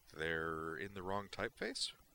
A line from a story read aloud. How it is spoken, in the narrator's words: the lower-ranking one said hesitantly